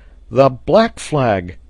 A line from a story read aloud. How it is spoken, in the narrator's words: he exclaimed